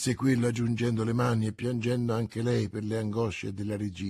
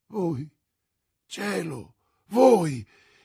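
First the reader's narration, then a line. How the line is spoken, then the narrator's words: Queen exclaiming. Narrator (Italian): esclamò la regina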